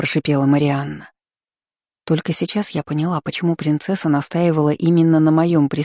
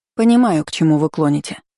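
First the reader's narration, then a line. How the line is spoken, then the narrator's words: Plain. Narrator (Russian): ответила незнакомка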